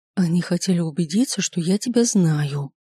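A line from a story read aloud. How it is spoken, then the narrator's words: Whisper. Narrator (Russian): шепнула мне баба Люба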